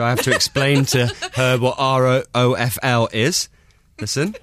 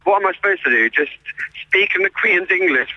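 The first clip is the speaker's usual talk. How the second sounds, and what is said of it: Imitates another person's voice. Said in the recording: “That was me doing a Queen impression.”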